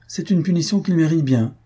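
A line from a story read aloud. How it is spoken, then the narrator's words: Cheerful reply. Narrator (French): répondit gaiement Faustine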